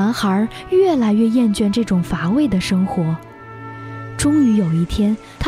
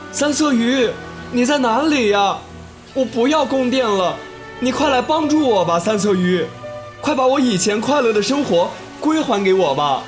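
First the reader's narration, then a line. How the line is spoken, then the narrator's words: Loud calling. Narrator (Chinese): 他大声呼喊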